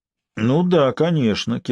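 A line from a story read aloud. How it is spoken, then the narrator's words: Bored voice. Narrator (Russian): Сварог скучным голосом продолжал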